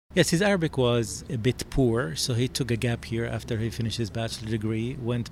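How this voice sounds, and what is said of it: English with a noticeable foreign accent. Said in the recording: “I have an accent. I'm trying to work on it still.”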